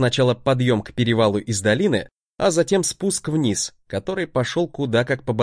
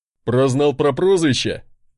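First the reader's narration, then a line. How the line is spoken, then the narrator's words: Porter chuckling. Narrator (Russian): хохотнул мой носильщик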